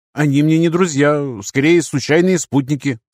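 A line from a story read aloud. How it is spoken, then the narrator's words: Plain. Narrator (Russian): сказал Ник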